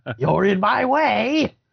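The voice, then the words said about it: Cartoon villain character voice. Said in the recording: “The bad guy, Lizard Tail. He sounded like a little bit like Cobra Commander.”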